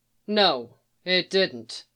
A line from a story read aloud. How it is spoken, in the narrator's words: she said flatly